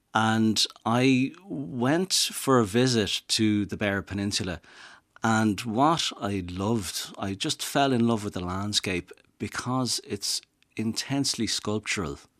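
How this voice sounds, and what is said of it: Dublin Irish accent. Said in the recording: “I'm from Dublin, as you can tell from my accent”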